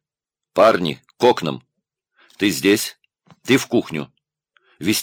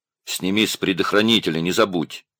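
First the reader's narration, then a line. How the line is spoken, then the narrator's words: Very calm. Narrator (Russian): совсем спокойно сказал он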